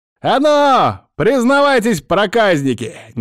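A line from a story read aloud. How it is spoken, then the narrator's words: Displeased yelling. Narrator (Russian): недовольно заорал он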